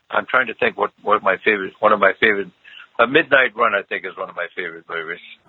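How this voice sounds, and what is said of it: Hoarse, croaky voice. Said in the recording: “I've got a frog in my throat”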